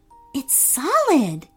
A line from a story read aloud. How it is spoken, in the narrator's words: she said in a hushed voice